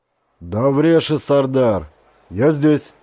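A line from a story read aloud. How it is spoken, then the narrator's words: Father speaking loudly. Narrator (Russian): громко сказал отец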